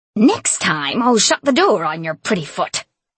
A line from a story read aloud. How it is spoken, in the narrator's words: she snarled at Shay